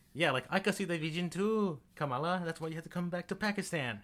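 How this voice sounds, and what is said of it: Poorly put-on distinct accent. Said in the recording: “Is that your accent now? ... It was a bad accent. ... she has a very distinct accent.”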